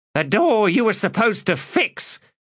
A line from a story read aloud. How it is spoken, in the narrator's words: snapped Picker